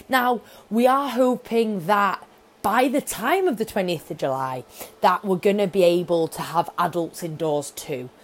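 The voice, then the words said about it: Excited, energetic speaking voice. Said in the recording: “as you can probably tell by my voice, I'm very, very excited”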